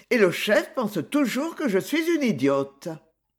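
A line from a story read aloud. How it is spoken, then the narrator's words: Cheerful. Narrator (French): dit-elle gaiement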